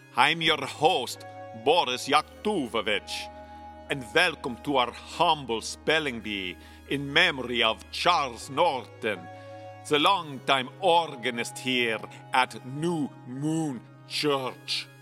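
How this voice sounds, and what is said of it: Eastern European accent. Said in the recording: “the man says in an Eastern European accent”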